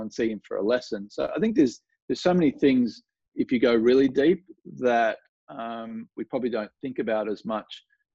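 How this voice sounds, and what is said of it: Strong Australian accent. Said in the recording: “i'm from australia so you know i have a strong accent”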